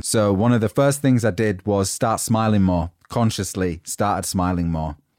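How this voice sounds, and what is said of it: Northern English accent. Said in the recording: “the grumpy northerner, and my accent was already a standout thing”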